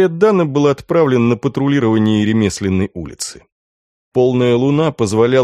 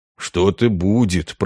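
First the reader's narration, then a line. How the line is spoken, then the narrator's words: Muttered. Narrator (Russian): пробормотал Ганс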